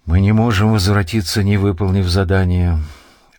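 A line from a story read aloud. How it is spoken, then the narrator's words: Glum speech. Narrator (Russian): уныло сказал Авар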